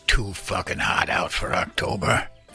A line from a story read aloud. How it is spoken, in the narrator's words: Henry grumbled